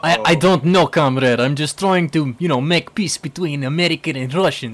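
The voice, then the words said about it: Bad put-on Russian accent. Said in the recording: “That's a terrible accent.”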